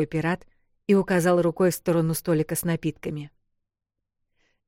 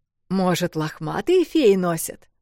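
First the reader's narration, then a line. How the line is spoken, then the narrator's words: Laughing pirate. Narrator (Russian): продолжал смеяться пират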